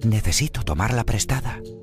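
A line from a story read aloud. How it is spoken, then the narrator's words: Whispered. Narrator (Spanish): susurró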